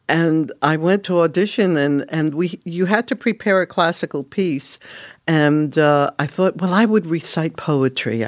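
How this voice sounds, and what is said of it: Strong New York accent. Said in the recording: “I still have a very New York accent, but back then it was worse”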